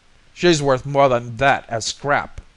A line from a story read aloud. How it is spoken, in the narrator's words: bellowed